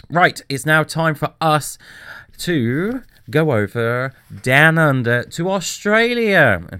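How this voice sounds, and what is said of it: Awful put-on Australian accent. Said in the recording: “That was my awful Australian accent.”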